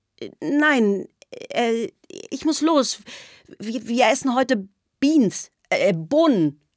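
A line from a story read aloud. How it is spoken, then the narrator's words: Stammering. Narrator (German): stammelte ich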